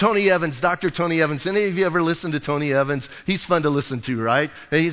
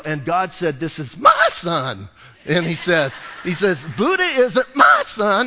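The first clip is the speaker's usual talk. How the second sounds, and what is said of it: Imitates another person's voice. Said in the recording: “I'll try and mimic it a little bit, but I'm not too good at that... my Tony Evans impression”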